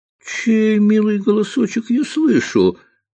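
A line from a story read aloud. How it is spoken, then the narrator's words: Cheerful reply. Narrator (Russian): радостно откликнулся ловец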